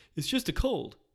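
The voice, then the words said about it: Imitates another person's voice. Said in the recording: “my Joe Rogan impression,”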